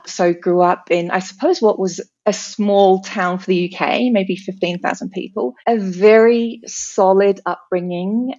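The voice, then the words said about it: British accent. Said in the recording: “I can hear a slightly non-Australian accent coming through there ... I'm born and bred British. You may have picked that up.”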